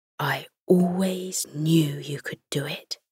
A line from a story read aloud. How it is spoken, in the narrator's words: he whispered to her